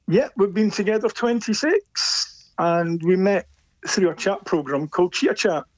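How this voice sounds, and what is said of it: Scottish accent, not Leicestershire. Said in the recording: “That doesn't sound like a Leicestershire accent to me. ... I was born and brought up in Edinburgh.”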